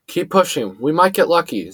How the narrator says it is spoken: Xavier gasped between coughing fits

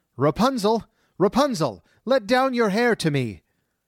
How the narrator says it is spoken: the sorceress called out

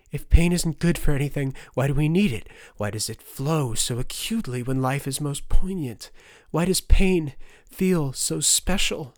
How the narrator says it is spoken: Turner gasped

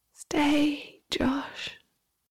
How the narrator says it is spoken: the voice commanded

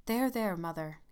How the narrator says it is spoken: he said hastily

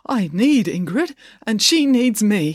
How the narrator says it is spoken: he said with a quaver in his voice

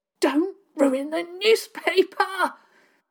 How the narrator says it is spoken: Dig gasped out

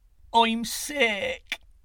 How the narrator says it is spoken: moaned

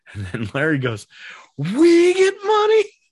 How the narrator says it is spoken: He screams

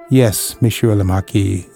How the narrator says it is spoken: said, dispassionately in her usual calm tone of a reasonable old woman

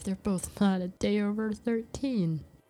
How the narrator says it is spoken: Ivy said, shaking her head with a laugh

